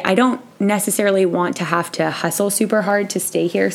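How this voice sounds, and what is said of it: Voice sounds like a cold. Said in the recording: “I have a little bit of a cold”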